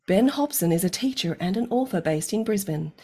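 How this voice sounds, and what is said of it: Radio announcer voice. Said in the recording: “I'm going to do it in a radio voice.”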